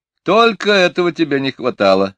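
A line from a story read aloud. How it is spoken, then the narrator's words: Loud laughter. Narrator (Russian): расхохотался сэр Кофа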